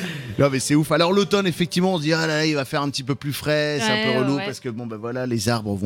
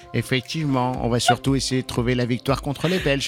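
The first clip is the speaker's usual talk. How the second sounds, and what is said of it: Imitates another person's voice. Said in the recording (French): “T'as voulu faire une imitation de Didier Deschamps?”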